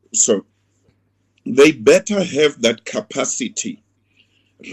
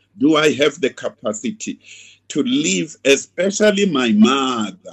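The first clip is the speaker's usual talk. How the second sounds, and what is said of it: Put-on foreign accent, emphasized. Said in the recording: “I deliberately used an accent of a foreign country. My mother, emphasis that.”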